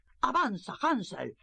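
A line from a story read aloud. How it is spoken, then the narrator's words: Stepmother shouting. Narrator (Spanish): gritaba su madrastra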